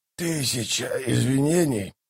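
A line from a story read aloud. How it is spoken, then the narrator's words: Hoarse old man. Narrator (Russian): прохрипел старик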